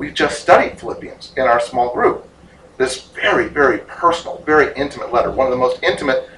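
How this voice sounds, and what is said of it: Usual voice. Nothing is said of it.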